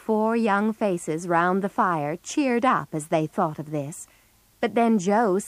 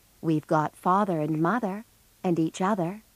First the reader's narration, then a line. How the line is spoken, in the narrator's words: said Beth, gently